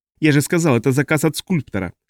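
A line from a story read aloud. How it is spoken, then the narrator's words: Sharp, barely restrained anger. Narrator (Russian): ответил Альфред резко, и казалось, он вот-вот выйдет из себя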